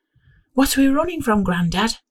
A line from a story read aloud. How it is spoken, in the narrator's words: I asked him breathlessly